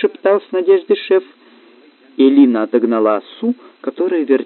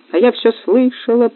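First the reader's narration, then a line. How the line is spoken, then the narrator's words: Squeaky voice from afar. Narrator (Russian): пропищала оса, отлетев на безопасное расстояние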